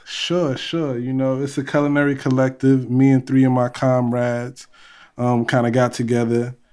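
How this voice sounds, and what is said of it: Bronx New York accent. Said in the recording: “You don't sound Italian at all, man. ... That's a North-South Bronx accent”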